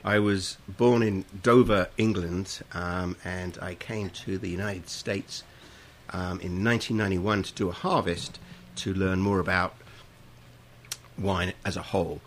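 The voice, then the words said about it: Non-American, English accent. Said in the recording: “Not a Sonoma County accent that you have.”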